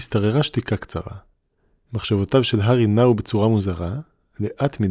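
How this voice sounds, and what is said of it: Usual voice. Nothing is said of it.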